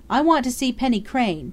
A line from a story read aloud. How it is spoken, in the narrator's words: Dundee cried